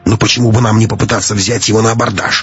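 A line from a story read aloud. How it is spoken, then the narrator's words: Exclamation. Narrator (Russian): воскликнул Матвей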